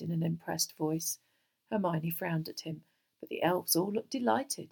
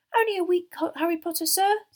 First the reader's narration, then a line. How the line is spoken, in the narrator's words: said Dobby happily